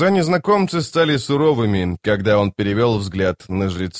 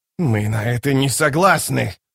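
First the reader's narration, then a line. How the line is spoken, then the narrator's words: Hiss. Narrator (Russian): прошипел Рад престол тени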